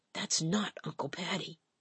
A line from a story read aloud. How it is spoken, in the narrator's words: She gasped and answered with a whisper